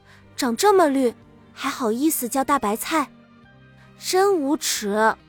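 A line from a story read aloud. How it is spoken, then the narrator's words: Deep sigh. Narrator (Chinese): 我爸又深深叹了口气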